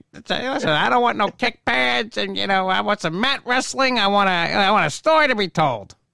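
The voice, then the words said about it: Imitates another person's voice. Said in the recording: “Oh, there's the ... impersonation.”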